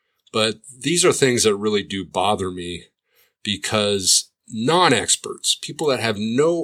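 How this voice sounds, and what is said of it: Usual voice. Nothing is said of it.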